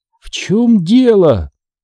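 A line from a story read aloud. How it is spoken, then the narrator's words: Hoarse wheeze. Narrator (Russian): просипела Дженис из своего угла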